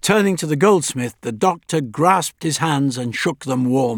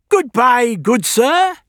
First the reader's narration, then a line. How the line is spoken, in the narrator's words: he cried gaily